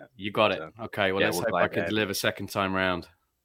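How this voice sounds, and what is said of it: British accent. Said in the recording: “the British accent”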